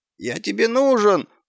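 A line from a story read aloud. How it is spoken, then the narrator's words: Whining dog. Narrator (Russian): заскулил пес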